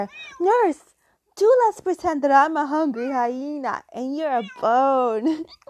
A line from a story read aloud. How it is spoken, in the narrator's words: shouting suddenly in her ear